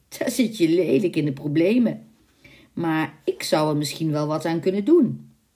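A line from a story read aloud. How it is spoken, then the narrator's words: Devil's sly, nasty chuckle. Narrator (Dutch): zei de duivel met een vals lachje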